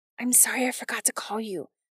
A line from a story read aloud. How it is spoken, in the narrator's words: Nyx whispered